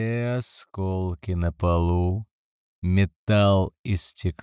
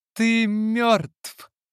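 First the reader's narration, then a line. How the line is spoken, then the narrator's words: Shouted. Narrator (Russian): крикнула Карлотта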